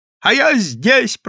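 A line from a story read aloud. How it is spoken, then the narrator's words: Shouted. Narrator (Russian): прокричал Прозрачный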